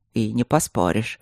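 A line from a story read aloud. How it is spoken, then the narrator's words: Sarcastic mutter. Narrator (Russian): буркнул он с сарказмом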